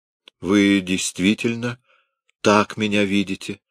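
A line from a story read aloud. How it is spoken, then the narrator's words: Asked sadly. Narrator (Russian): спросила она грустно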